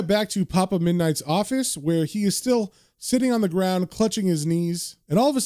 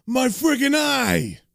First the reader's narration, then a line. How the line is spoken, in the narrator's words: Murray screams